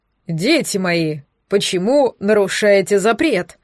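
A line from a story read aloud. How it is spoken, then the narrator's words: Booming low voice. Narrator (Russian): прогремел низким голосом Люциус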